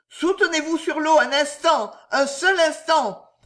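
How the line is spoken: Bellowed. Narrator (French): vociféra M

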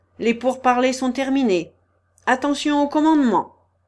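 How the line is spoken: Shouted at full strength. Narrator (French): cria de toute sa force Kirillov

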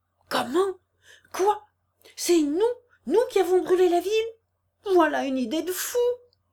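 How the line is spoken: Group exclaiming. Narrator (French): s'écrièrent les interpellés

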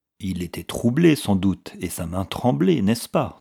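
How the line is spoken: Plain. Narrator (French): demanda l'agent

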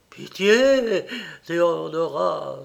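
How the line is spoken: Groaning cry. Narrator (French): s'écria en gémissant

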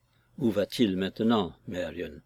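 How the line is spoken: Sister speaking low. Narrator (French): me dit ma sœur à voix basse

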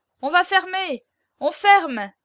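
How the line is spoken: Crowd shouting. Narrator (French): criait la cohue

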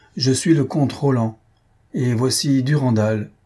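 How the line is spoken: Thundering voice. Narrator (French): Roland d'une voix tonnante

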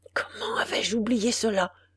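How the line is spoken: Murmuring. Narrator (French): murmura-t-il

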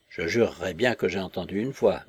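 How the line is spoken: Murmured. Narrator (French): murmura-t-il

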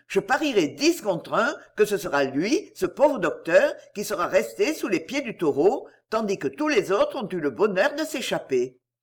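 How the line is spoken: Exclaimed. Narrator (French): s'écria-t-il

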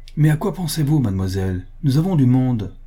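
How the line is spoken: Exclaimed. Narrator (French): s'écria-t-elle

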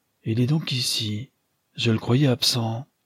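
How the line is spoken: Murmur. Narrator (French): murmura le capitaine Aralan

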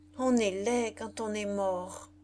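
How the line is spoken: Slow voice. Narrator (French): dit-elle d'une voix lente

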